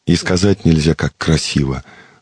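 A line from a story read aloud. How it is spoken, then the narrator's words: Sighed. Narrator (Russian): вздохнул Иероним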